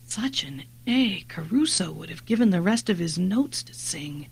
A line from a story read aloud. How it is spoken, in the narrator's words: Jennin remarked quietly